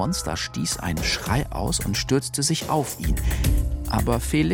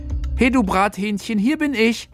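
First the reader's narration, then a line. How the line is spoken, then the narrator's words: Exuberant shout. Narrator (German): Felix rief übermütig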